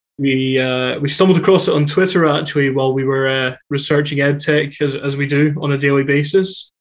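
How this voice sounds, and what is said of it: Scottish accent. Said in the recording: “Everybody hears the accent. ... I'm coming to you from Edinburgh in Scotland. ... It's an accent. It's a little bit different to what your listeners might be used to”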